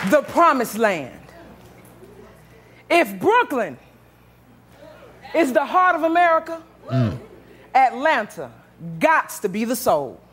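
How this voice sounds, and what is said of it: Southern American accent, twang. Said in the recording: “Gots to be the South, no doubt. You can tell by the flow of my mouth, my southern twang”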